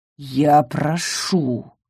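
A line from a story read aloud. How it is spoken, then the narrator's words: Growl. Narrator (Russian): рыкнул Ингар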